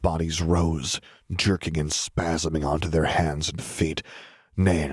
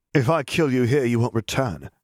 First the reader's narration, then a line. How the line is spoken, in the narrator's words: Harry said